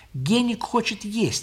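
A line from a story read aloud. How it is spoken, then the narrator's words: Plain. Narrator (Russian): ответила Лиля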